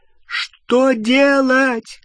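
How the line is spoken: Shouting over flames. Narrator (Russian): крикнула Гермиона через гудение пламени

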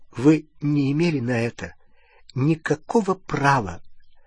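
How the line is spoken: Trembling voice. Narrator (Russian): она сказала дрогнувшим голосом

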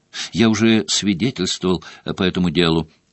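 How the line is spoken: Calm. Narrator (Russian): спокойно сказал он

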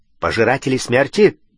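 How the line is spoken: Sharp question. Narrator (Russian): резко переспросил Тед

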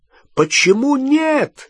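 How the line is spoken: Shouted. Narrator (Russian): закричал Гарри

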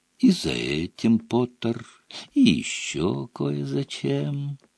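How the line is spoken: Whisper. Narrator (Russian): прошептал Малфой

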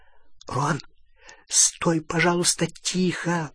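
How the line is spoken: Whisper. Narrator (Russian): прошептала Полумна

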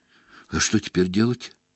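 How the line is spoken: Quiet question. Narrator (Russian): тихонько спросил Гарри

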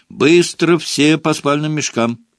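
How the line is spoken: Shouting. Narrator (Russian): крикнул Перси

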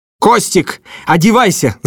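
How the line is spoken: Yelling. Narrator (Russian): заорал

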